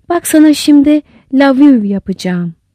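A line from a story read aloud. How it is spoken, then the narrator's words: Plain. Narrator (Turkish): dedi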